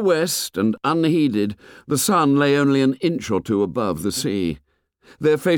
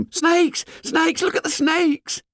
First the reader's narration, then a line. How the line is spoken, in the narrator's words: The little boys screamed at them